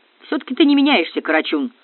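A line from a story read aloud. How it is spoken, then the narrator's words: Grumbling. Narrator (Russian): проворчал Железовский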